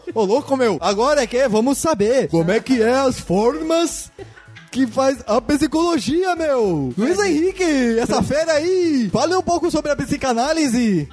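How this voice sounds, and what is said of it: Impression of Faustão, São Paulo accent. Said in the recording (Portuguese): “Você tava imitando o Faustão ou o Paulista?”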